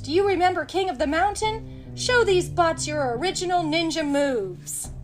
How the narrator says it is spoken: yelled

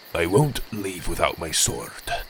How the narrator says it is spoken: Magborn said weakly

